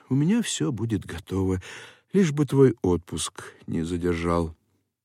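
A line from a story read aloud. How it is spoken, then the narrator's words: Sad, upset mother. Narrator (Russian): Мать, очень огорченная, печально отвечала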